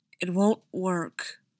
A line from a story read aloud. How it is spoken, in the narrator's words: said Thor, his voice raw as if he was trying to convince himself